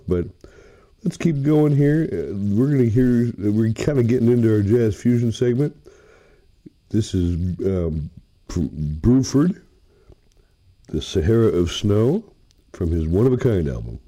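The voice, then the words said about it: Rough voice from a cold. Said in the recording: “I got a cold, so my voice is a little bit rough”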